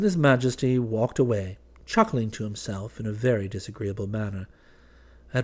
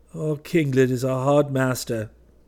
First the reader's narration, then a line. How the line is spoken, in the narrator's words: he said with a sigh